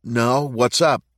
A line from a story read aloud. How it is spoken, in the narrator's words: Matt said